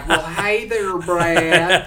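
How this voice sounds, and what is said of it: Put-on Southern Belle accent. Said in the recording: “I do a Southern Belle accent”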